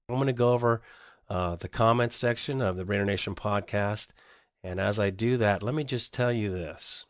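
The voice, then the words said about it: Congested, stuffy-nosed voice. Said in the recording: “I have a cold, so this podcast is a little bit off because I'm a little bit off, you know, stuffy nose and all.”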